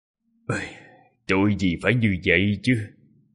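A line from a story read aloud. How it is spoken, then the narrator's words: Sighing. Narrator (Vietnamese): Đại sư huynh thở dài nói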